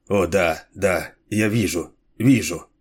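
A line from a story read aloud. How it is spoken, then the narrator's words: Muttering. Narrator (Russian): пробормотал он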